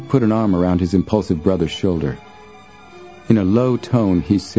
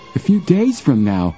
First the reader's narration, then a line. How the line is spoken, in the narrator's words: Joe exclaimed, horrified